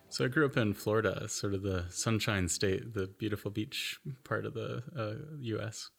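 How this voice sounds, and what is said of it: Noticeable American accent. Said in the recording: “You have a noticeable American accent there.”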